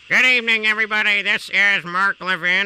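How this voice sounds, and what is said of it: Impression of Mark Levin. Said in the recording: “This is actually a pretty damn good impression.”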